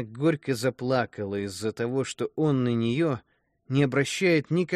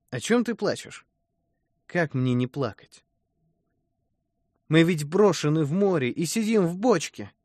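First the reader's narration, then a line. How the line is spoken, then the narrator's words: Plain. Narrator (Russian): Тогда Емеля сказал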